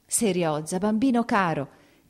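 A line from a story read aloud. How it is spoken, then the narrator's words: Choked exclamation. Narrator (Italian): esclamò, soffocando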